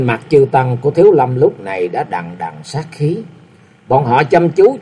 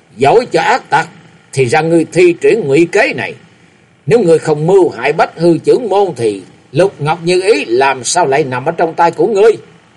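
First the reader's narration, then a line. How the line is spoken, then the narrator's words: Old woman shouting. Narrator (Vietnamese): La Sát Bà Bà lớn tiếng quát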